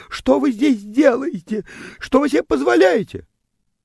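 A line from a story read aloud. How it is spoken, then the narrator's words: Startled shriek, indignant questioning. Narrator (Russian): Девочка взвизгивала от неожиданности возмущенно вопрошала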